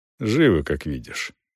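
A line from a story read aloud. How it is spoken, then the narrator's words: Dry reply. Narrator (Russian): сухо ответил Челвик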